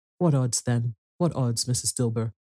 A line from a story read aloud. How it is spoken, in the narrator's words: said the woman